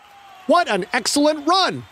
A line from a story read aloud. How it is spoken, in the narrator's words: Fayed screamed at him